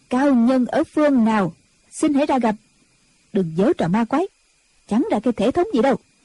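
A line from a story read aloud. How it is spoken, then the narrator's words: Loud voice. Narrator (Vietnamese): Diệt Tuyệt Sư Thái lớn tiếng nói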